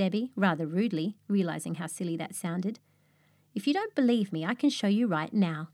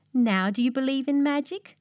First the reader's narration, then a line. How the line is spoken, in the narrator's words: laughed Katy